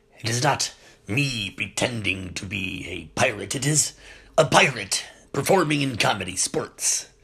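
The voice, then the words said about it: Pirate character voice. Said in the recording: “doing the pirate voice”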